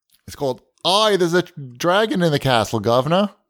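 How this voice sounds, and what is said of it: Mock British accent, Australian-sounding. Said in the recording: “Like an Australian pretending to do a British accent? Because uh-huh. That's what you did.”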